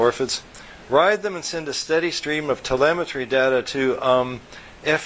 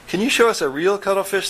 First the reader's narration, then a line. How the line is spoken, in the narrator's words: the orphids asked